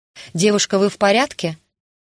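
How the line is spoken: Muffled shouting. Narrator (Russian): Голос доносился до меня так, словно говоривший кричал сквозь прижатую ко рту подушку

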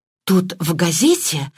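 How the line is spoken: Excited breathless. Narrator (Russian): взволнованно выдохнула Мергатроид

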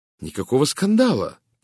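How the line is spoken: Ardent exclamation. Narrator (Russian): пылко воскликнул я

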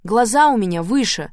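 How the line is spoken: Barked. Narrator (Russian): рявкнула я

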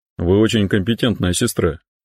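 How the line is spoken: Mutter. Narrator (Russian): буркнул он

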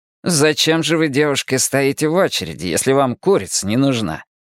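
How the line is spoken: Snide question. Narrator (Russian): ехидно спросил психолог Вилен

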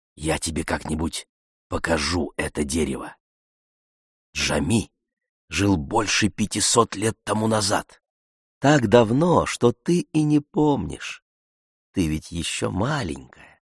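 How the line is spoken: Whisper. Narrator (Russian): Джалиль прошептал

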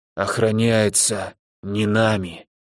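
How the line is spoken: Old man whispering. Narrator (Russian): шепнул старик

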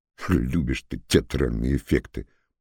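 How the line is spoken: Mutter. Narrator (Russian): пробормотал Лыков

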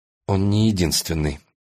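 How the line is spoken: Strained, forced out. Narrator (Russian): выдавила Алина

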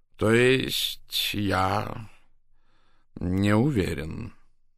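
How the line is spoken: Slow. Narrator (Russian): медленно произнес он

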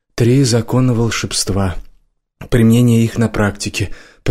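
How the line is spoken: Gloomy reading aloud. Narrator (Russian): прочитал он вслух мрачным голосом

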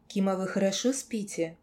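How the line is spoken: Quiet question. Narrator (Russian): я тихо спросила

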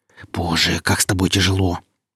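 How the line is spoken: Hissing. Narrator (Russian): зашипела Нелли

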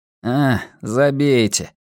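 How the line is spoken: Grumbling. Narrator (Russian): буркнул Арни

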